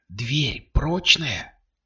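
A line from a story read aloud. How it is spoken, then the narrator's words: Whispered question. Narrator (Russian): шепотом спросила Кристина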